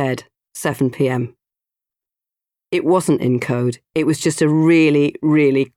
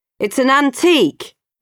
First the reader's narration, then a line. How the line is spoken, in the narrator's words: He shouted back up